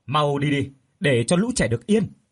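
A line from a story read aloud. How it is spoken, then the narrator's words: Distant loud shout. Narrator (Vietnamese): tiếng của người từ đâu đó quát lớn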